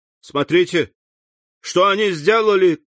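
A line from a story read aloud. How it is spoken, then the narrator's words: Urgent shout. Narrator (Russian): крикнул Морель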